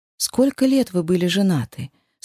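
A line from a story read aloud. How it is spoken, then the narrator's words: Tactful tone. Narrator (Russian): спросила тактичным тоном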